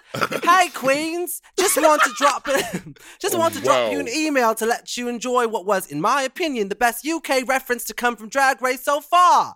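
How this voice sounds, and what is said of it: Put-on British accent. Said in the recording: “read it in a British accent ... your Canadian version of a British accent”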